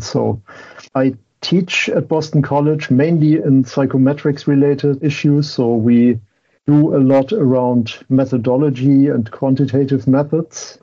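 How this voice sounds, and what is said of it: German accent in English. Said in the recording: “German-educated ... My background at least explains my accent”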